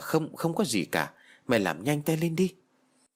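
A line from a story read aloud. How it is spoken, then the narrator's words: Stammering answer. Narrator (Vietnamese): Tôi lắp bắp trả lời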